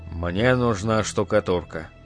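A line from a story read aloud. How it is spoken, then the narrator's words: Calm. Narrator (Russian): сказал он спокойно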